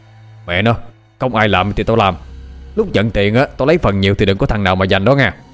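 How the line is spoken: Burly man shouting. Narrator (Vietnamese): một tên to con nhất trong đám quát lên

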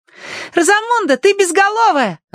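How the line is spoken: Joyful shout. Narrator (Russian): радостно крикнула Агнес

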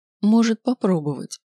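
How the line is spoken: Calm confirmation. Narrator (Russian): спокойно подтвердила Мидла

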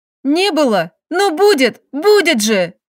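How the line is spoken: Halting cry, then sobbing. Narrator (Russian): Выкрикнула сбивчиво и разрыдалась

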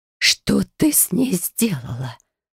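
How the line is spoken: Whispered question. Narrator (Russian): шепотом спросила мать

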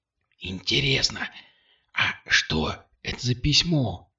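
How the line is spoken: Whispered. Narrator (Russian): шепот Кристины

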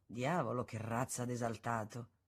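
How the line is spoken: Others murmuring. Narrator (Italian): Altri invece mormoravano

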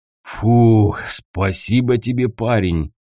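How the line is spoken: Breathless deep voice. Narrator (Russian): задыхаясь, пробасил тот, что повыше

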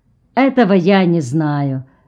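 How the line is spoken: Indifferent tone. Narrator (Russian): ответил Карпентер безразличным тоном

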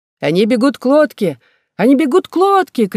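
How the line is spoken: Crowd shouting in panic. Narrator (Russian): кричали все на корабле

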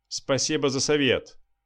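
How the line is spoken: Snorting lieutenant. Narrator (Russian): хмыкнул лейтенант

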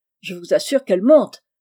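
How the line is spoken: Shouted. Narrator (French): cria M

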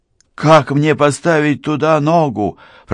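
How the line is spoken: Shouting. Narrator (Russian): прокричал Рафи, раскачиваясь в воздухе

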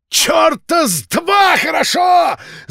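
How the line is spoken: Yelling. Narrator (Russian): заорал Филд

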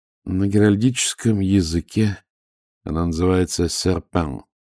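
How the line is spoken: Gloomy reply. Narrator (Russian): мрачно ответил Ваймс

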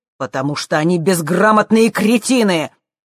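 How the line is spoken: Nearly shouting. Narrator (Russian): Джим почти кричал

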